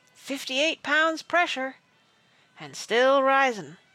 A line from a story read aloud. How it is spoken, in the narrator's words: someone called out